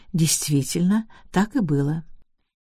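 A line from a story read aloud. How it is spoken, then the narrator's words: Calm reply. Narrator (Russian): Миссис Лестрендж спокойно ответила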